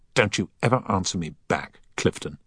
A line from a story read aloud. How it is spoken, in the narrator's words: he said angrily